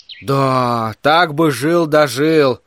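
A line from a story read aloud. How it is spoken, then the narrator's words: Sighing. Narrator (Russian): вздохнул Верн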